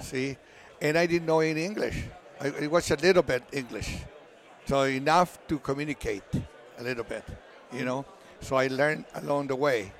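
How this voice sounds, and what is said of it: Spanish-accented English. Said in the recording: “not a great accent ... Spanish”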